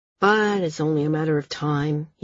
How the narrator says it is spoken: said, his voice weary

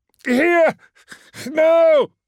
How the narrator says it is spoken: he yelled at the servitors

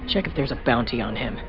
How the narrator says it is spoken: Nath muttered to the droid

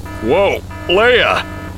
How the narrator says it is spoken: he groaned

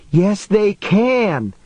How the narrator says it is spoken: she shouted back

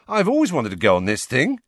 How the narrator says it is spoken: said Ron happily

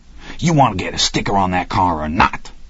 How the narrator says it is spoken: Rocky hissed at him

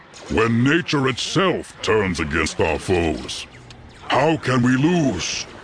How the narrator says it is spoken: a voice declared in a deep bellow

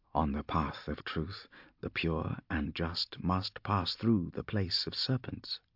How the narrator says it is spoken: he whispered to himself

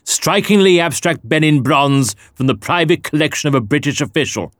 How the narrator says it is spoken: snorted

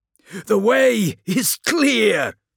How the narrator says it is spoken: shouted Kelinkir

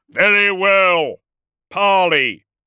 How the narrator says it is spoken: Magnaric roared

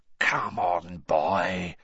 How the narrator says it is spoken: whispered Moody

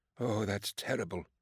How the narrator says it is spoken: Amos murmured

